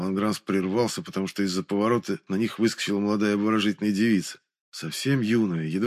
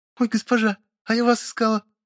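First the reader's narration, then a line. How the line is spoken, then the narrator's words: Joyful squeak. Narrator (Russian): Радостно пискнула она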